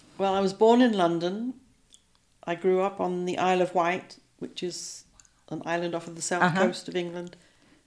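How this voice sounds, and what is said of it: English accent. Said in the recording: “You've got this delightful English accent.”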